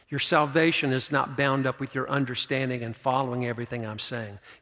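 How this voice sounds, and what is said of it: North Carolina redneck accent. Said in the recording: “this Tar Heel redneck accent”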